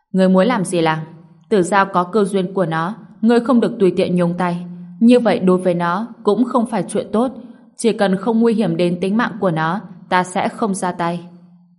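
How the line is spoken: Angry. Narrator (Vietnamese): Phá Quân tức giận trừng mắt nhìn Tham Lang nói

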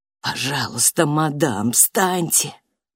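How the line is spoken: Whisper. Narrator (Russian): прошептал пристав

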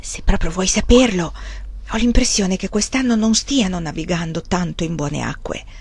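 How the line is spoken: Whispered. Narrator (Italian): disse in un sussurro

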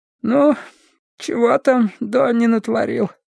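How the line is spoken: Mumbling while smoking. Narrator (Russian): Попыхивая сигаретой, прошамкала Лоррейн

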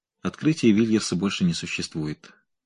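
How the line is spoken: Calm statement. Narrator (Russian): спокойно произнес Мендел

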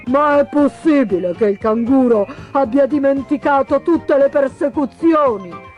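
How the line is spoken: Exclaimed. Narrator (Italian): esclamò il pellicano

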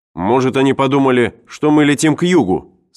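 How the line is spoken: Plain. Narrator (Russian): сказал Брэдли

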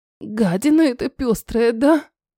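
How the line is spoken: Spiteful nurse through teeth. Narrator (Russian): Злобно процедила сиделка

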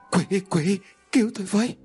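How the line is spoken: Panicked trembling voice. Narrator (Vietnamese): Quân run rẩy trong hoảng loạn

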